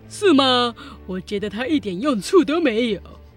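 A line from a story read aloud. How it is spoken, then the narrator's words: Grinning. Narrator (Chinese): 巴内咧开嘴笑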